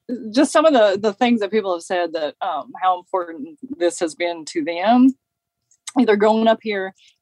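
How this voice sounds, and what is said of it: Teary, emotional voice. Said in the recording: “I might get a little teary-eyed”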